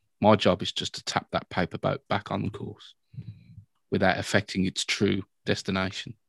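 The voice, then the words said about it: British accent. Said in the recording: “your British accent,... very Gandalf-like”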